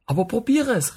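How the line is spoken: Calling out. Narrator (German): rief ich

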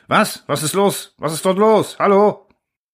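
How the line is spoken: Distorted, broken by whining. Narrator (German): verzerrter Laut, der von gedehnten Winseln unterbrochen wurde

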